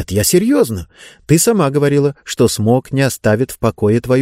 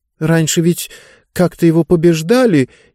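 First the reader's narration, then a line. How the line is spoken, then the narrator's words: Uncertain reply. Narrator (Russian): неуверенно ответила Диба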